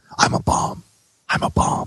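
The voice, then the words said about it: Whispering. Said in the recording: “whispering”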